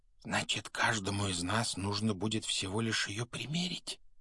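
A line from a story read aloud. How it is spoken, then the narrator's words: Whispered. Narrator (Russian): прошептал Рон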